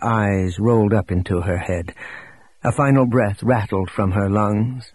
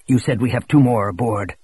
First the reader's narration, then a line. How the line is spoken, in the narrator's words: Showalter said sharply